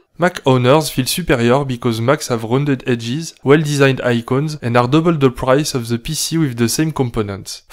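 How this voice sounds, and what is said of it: Strong non-native English accent. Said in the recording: “My English may lead to suicidal tendencies... as wrong as my accent”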